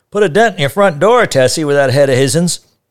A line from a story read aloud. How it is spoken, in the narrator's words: Mal shouted from across the street